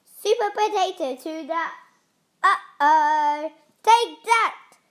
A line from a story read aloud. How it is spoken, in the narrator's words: shouted the pea